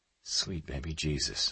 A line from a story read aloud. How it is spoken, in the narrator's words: I whispered